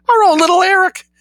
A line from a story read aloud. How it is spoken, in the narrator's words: screamed Mrs